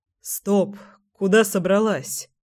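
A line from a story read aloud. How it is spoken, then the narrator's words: Hoarse command. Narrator (Russian): Сипло остановил Семен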